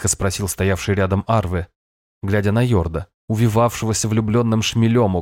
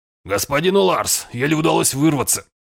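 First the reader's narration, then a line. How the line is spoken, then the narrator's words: Noisy exhale. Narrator (Russian): шумно выдохнул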